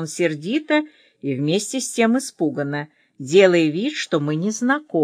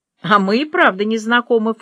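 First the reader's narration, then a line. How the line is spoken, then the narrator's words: Snorting. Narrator (Russian): фыркнула я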